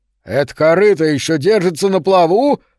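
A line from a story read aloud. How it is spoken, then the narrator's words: Shout. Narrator (Russian): прокричал Гэри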